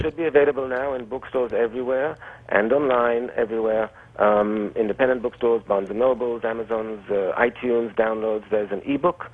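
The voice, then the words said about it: Quasi-European accent. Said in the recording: “my quasi-European accent”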